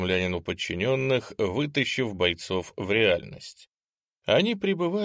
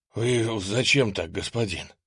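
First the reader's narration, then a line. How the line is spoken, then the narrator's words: Breathless exhale. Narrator (Russian): выдохнул запыхавшийся десятник штабной роты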